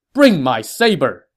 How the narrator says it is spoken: Huang Zhong shouted to a soldier

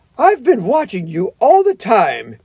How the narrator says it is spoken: she gasped

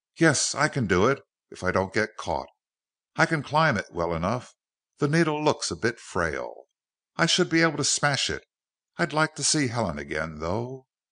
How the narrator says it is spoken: muttering to himself

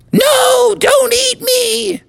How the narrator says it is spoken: screamed

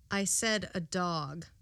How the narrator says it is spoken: The young officer answered calmly

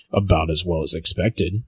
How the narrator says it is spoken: grunts

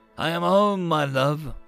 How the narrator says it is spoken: Buxton said, his voice rough, raspy, but still his

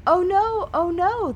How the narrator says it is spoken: the darling cried

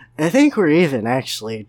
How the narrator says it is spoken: Jeff replied, his voice a little slurred from the whiskey

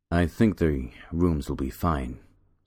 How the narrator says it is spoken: said Peter

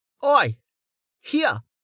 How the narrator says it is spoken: Nemet yelled

